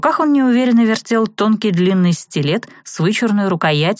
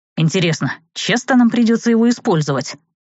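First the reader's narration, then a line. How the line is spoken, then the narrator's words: Muttering. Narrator (Russian): пробормотал Серж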